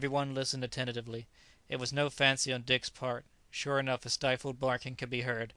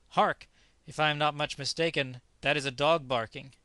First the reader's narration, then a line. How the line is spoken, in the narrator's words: Dick Sands suddenly exclaimed